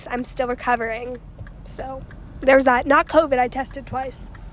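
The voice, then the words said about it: Voice sounds sick with a cold. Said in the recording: “I got a cold over the break, and I'm still. You can hear it in my voice.”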